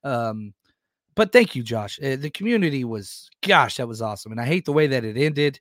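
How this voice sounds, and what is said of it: Hoarse, fading voice. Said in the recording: “My voice is still gone... you can tell it's going out as this show goes on”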